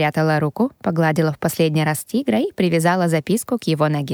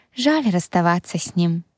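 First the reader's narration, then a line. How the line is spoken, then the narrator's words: Sad. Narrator (Russian): грустно проговорила я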